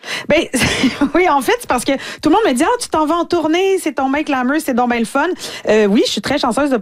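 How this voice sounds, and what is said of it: Usual voice. Nothing is said of it.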